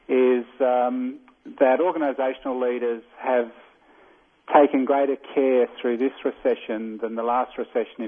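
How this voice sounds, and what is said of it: Australian accent. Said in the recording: “people will probably detect from my accent I'm not American. I'm Australian”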